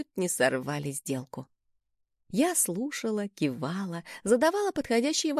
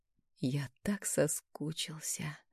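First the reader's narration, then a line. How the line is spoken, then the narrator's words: Whisper in ear. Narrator (Russian): прошептал он мне на ухо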